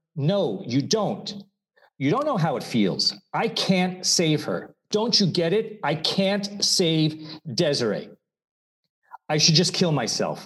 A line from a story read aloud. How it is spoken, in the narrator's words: screamed, tears of rage and pain clouding my vision